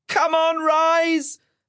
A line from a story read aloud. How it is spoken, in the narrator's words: Ash shouted